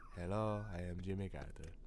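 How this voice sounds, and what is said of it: Weak impression of Latka. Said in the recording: “Oh, that's a that's not a good Latka.”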